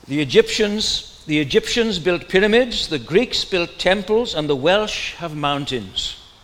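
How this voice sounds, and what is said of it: Welsh accent. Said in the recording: “I'll do it in a Welsh accent. ... well, it won't be different to my normal accent.”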